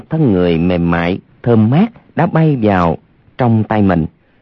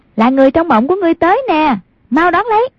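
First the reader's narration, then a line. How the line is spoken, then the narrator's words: Girl laughing loudly. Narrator (Vietnamese): một giọng con gái cười lớn nói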